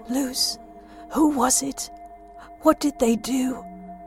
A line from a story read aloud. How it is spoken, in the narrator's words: His voice wavered with emotion